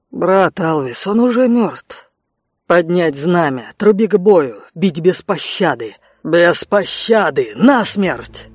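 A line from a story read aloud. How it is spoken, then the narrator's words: Echoing hoarse shouts. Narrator (Russian): эхо хриплых криков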